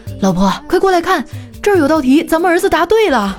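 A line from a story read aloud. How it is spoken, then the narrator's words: Excited shout. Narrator (Chinese): 就好像发现新大陆似的，大喊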